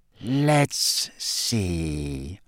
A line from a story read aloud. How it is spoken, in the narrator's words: he said in his silkiest voice